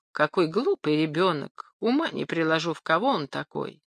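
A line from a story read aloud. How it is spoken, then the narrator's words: Sad. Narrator (Russian): Пьер грустно добавил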